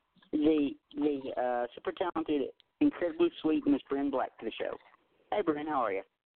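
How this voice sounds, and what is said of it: Southern US accent. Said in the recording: “You sound like you might have a North Carolina accent ... I'm a born and raised Tennessean ... your accent is fantastic”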